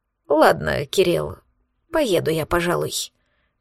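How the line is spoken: Calm, almost friendly. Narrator (Russian): произнес тем не менее спокойно, даже практически дружелюбно

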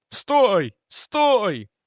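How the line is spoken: Wailing yell. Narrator (Russian): завопил Дженкинс

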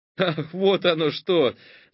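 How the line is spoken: Forced joyless laugh. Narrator (Russian): засмеялся Олег, хотя было совсем не весело

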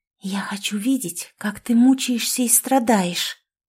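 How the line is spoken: Whisper in ear. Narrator (Russian): прошептала Лаура на ухо Артему

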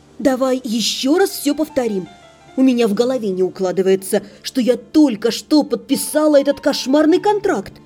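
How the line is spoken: Hissing at a friend. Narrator (Russian): Шипела я на безалаберную подругу

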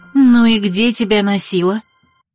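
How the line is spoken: Menacing tone. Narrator (Russian): грозным тоном произнесла Анита

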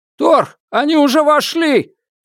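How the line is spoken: Shouted. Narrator (Russian): крикнул кто-то

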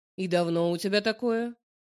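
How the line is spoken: Stern question. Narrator (Russian): спрашивает строго

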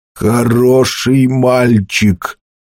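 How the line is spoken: Strange, altered voice. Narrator (Russian): сказал Грен чужим голосом

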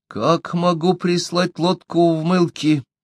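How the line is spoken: Old man's mutter. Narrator (Russian): пробормотал старик

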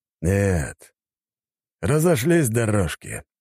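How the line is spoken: Sudden snort over phone. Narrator (Russian): неожиданно хмыкнул в трубку Рыков

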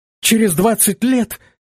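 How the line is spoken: Astonished girl exclaiming. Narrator (Russian): воскликнула пораженная девушка

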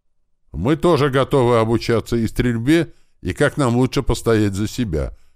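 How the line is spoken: Loud. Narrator (Russian): громко сказала рыжая

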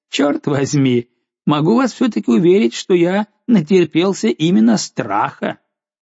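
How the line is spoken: Laughing reply. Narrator (Russian): Капитан отвечал, смеясь

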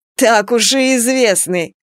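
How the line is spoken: Father laughing loudly. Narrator (Russian): расхохотался отец

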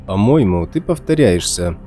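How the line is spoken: Dry. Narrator (Russian): сказал я сухо

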